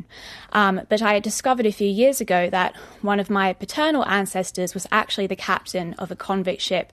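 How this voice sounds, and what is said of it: Australian accent. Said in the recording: “I'm Australian, as you can probably hear from my accent.”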